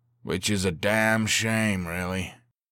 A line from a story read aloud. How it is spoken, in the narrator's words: the pilot replied with a sigh